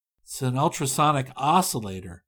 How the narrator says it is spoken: murmured thoughtfully

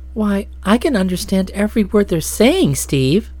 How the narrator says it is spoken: Nadia exclaimed in surprise

